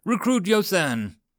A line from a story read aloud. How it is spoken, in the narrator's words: Collins yelled out